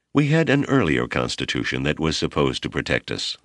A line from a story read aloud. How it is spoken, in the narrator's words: Malama said